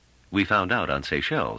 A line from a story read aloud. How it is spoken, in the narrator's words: said Trevise dryly